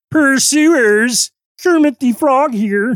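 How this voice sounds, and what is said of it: Bad Kermit the Frog impression. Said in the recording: “That's a terrible, terrible, terrible impersonation.”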